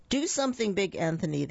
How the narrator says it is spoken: they shouted

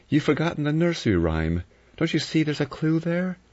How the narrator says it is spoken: She recited in a meaning voice

